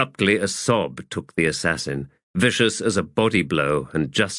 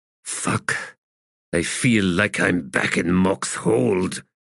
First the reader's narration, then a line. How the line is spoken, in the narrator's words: he said in a growl